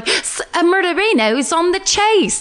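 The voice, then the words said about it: Put-on Australian accent. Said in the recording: “That's my accent.”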